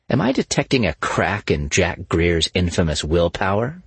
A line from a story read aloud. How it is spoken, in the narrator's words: she said mockingly